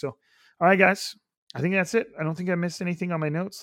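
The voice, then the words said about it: Raspy, strained, slightly croaky voice. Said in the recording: “my voice is a little raspy or a little more Kermity than normal ... I'm always kind of yelling to the crowd ... my voice is it's at it”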